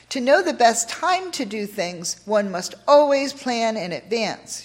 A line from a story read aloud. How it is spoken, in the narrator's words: she said